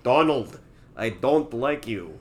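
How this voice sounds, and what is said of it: Put-on Russian accent. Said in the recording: “my only Russian accent ... the secret to my Russian accent. I just copied Robbie Coltrane's performance in Goldeneye”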